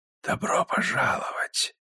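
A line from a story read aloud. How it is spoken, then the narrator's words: Faint hissing whisper. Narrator (Russian): поприветствовал он змеиным шепотом, настолько тихим, что едва можно различить слова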